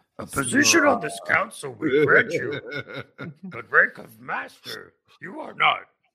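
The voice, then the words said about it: Mangled Yoda-style character voice. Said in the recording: “fucked up Yoda impersonation”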